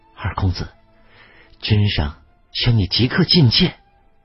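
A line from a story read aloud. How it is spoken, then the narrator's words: Old man, low voice. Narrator (Chinese): 白发苍苍的老内侍黑伯低声道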